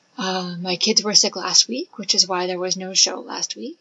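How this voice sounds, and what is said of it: Voice sounds like a cold. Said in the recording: “As you may be able to tell in my voice, I think I'm getting a cold.”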